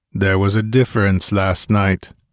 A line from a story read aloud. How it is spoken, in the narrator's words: growled Conan